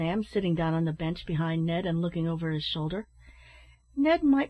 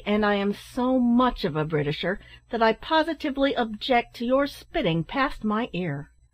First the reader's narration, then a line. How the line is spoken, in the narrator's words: answered Ned somewhat angrily